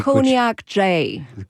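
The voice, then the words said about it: French speaker putting on American accent. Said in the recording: “Say that with an American accent”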